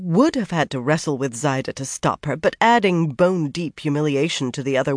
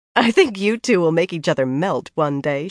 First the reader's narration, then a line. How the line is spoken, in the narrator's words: said, laughing